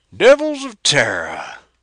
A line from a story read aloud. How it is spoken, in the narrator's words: gasped the Martian, his knees giving way